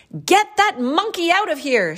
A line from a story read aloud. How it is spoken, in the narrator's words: yelled